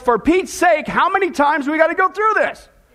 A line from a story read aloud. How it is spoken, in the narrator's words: She yells